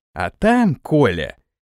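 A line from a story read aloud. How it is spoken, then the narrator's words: Snide. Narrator (Russian): ехидно произнес Самойлов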